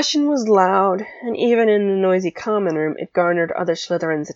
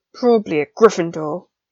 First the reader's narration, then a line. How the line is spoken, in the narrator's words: Draco grumbled